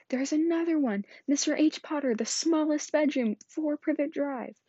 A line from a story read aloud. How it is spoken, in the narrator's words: he shouted